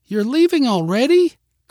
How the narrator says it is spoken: cried Mary

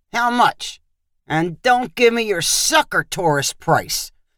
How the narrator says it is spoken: Tony said harshly

